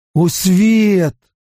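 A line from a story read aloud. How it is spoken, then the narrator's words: Crying out. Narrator (Russian): выкрикнул Мэтт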